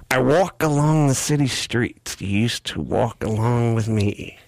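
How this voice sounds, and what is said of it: Imitates another person's voice. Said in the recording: “I want to do it like in a celebrity ... You want to do imitations? ... That impression did not help at all.”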